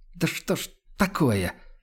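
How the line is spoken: Exasperated hiss through teeth. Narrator (Russian): в сердцах шипит сквозь зубы

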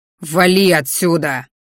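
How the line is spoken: Growling. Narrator (Russian): рыкнул я

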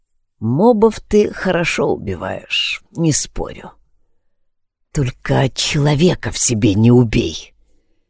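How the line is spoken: Quiet. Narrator (Russian): тихо сказал

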